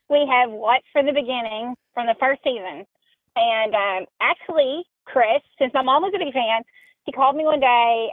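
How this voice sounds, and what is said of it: Tennessee accent. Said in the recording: “coming in from Tennessee ... I love your accent”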